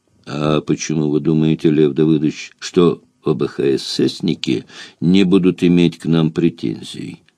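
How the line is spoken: Sweet, smiling. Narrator (Russian): Сладко улыбнулся ему Гниломедов

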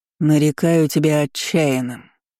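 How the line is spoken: Deep bass voice. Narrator (Russian): пробасил вожак

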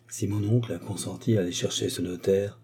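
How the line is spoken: Low voice. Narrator (French): dit-il à voix basse

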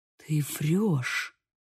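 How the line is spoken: Uncertain whisper. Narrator (Russian): прошептал он, но неуверенность уже охватила его

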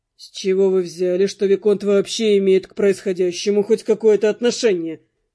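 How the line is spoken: Snorting mercenary. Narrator (Russian): фыркнул наемник

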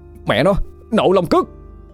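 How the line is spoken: Shout. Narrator (Vietnamese): Bầu hét lên một tiếng

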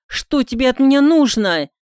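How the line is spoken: Angry shout. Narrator (Russian): зло крикнула она

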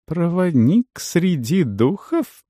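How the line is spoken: Interrupting, then laughing loudly. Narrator (Russian): перебил его Есира и расхохотался

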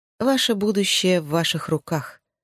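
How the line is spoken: Gloomy. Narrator (Russian): мрачно сказала миссис Коннор

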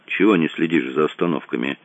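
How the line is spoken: Grumbling mutter. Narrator (Russian): пробурчал он

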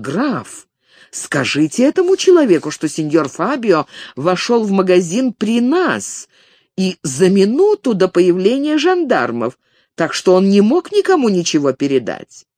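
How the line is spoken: Loud indignant exclamation. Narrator (Russian): Ее благородная душа возмутилась, и она громко воскликнула

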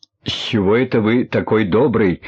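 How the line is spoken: Angry question. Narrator (Russian): зло спросил Королев

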